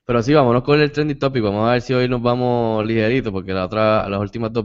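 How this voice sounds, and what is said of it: Congested, nasal voice with sore throat. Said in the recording (Spanish): “estaba fañoso y tenía la garganta todavía, si me escucho mal, pues estoy saliendo del catarrazo que me dio”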